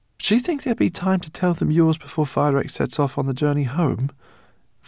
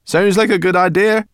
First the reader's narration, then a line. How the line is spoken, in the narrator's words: cried Sorrel and Berberchan in unison